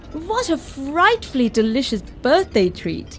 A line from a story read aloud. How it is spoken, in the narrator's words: squealed Mum in delight